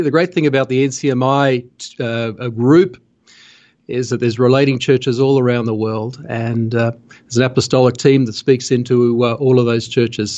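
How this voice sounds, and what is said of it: Australian accent. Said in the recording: “I'm from Australia. You probably guessed from my accent.”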